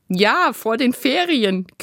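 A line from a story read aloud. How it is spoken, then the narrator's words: Laughing. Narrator (German): Quentin lachte auch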